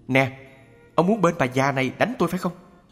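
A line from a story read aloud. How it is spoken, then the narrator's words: Shouting. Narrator (Vietnamese): Ông kéo bà nhỏ, cũng la quát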